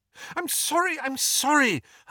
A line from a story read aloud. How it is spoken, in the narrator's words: Hermione cried